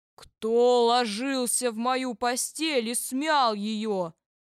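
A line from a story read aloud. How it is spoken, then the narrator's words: Terrible roar. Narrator (Russian): заревел Михаил Иванович страшным голосом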